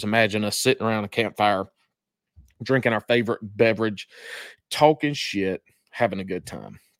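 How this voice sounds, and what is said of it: Country accent. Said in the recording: “I'm country. I'm country as hell. Can't tell from my accent.”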